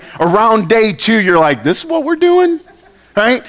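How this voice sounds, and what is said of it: Loud, near-yelling speech. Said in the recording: “I'm yelling”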